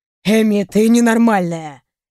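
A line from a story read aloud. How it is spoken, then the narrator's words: Annoyed hiss. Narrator (Russian): недовольно прошипел Рэй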